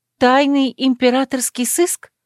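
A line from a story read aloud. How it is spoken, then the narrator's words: Exclaimed. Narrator (Russian): воскликнула Кэс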